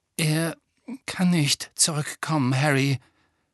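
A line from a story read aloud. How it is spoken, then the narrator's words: Voice breaking. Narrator (German): sagte Lupin mit brechender Stimme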